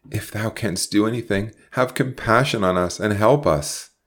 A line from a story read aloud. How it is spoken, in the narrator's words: he cried in sudden entreaty